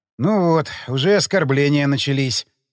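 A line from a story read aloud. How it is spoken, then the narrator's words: Sighing. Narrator (Russian): вздохнул я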